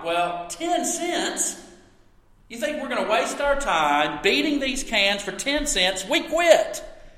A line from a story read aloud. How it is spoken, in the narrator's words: the leader of these boys piped